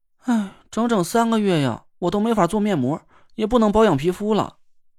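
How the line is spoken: Helpless sigh. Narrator (Chinese): 田慧文想了想，无奈的叹了口气

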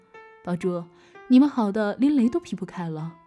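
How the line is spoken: Laughing. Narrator (Chinese): 笑着说

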